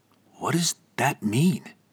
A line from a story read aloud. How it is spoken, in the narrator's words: Damien whispered